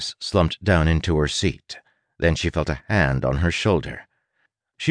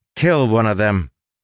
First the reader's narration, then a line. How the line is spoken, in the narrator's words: Crow shouted